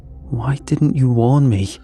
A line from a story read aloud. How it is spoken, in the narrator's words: I asked, my voice shaking